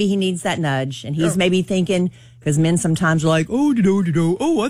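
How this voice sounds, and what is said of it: Usual voice. Nothing is said of it.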